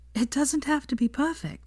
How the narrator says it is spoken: said, gasping for air

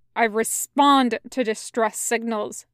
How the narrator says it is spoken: Zhang Cheng snaps

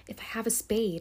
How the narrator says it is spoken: she whispered

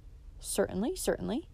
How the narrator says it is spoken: said both the agent and the farmer's wife

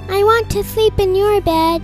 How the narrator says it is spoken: Charlie cried

